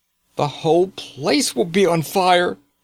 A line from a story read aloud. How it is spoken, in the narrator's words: cried Eustace